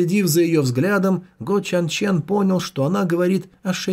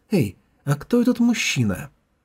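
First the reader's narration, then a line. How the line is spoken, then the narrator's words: Quiet interrupting question. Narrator (Russian): прервала его Джухун тихо спросила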